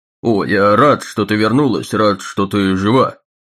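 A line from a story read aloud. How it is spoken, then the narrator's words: Irritated. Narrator (Russian): раздраженно добавил он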